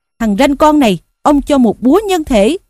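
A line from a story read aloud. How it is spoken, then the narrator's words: Bellowing. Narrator (Vietnamese): Lý Quỳ quát rằng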